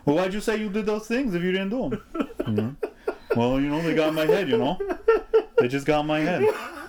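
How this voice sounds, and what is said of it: Bad put-on accent. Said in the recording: “doing a bad accent”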